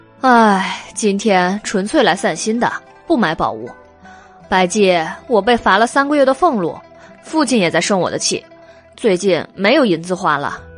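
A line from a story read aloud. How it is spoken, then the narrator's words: Sighing. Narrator (Chinese): 韦燕叹了一口气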